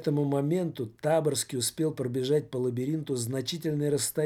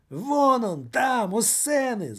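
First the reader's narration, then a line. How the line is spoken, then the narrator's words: Screaming. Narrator (Russian): завопил господин Радио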